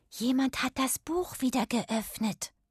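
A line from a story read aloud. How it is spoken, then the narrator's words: Whispering. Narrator (German): flüsterte Irma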